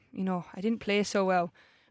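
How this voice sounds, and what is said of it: Deliberately bad Irish accent. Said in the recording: “I'm going to do my worst Irish accent.”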